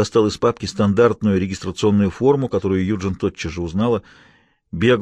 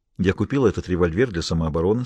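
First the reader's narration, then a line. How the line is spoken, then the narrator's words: Calm. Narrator (Russian): сказала она спокойно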